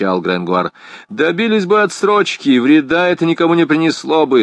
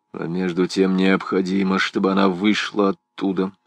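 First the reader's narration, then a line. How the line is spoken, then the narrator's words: Muttering. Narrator (Russian): бормотал он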